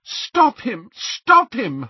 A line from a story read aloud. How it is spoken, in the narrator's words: cried